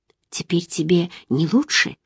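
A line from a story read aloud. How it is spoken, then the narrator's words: Sudden whispered question. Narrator (Russian): Внезапно спросила шепотом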